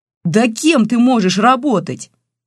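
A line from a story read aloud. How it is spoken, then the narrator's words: Yelling. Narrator (Russian): заорал Олег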